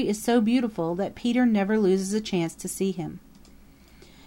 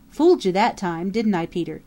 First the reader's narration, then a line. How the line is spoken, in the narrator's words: he chuckled